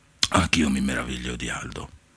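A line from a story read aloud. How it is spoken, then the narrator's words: Murmured. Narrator (Italian): mormorò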